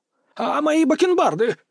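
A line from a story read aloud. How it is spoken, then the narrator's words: Shrill squeal. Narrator (Russian): взвизгнул Земельцев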